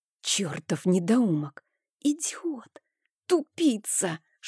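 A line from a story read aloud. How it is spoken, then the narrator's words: Whispered furious cursing. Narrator (Russian): Шепотом ругала я Рейна, на чем свет стоит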